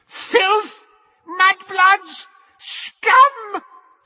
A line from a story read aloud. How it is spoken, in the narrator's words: she screamed after them